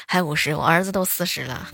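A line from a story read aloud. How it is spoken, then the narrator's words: Delighted, laughing. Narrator (Chinese): 老太太当时笑的是合不拢嘴儿啊，乐呵呵的说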